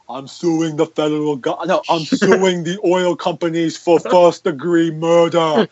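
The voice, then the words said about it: Arnold Schwarzenegger impression. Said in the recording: “you do an impression, I think of Marge Simpson. That time I actually thought of the person you were Arnold impersonating ... Every impersonation sounds like Marge”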